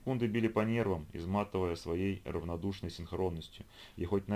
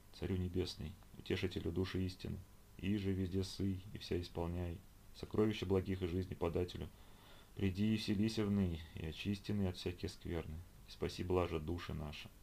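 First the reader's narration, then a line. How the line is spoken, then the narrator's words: Tireless whispered prayer. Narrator (Russian): Ее губы неустанно шептали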